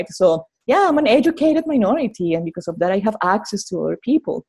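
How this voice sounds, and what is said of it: Speaks with a noticeable accent. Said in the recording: “people will discriminate me in many ways because of my accent”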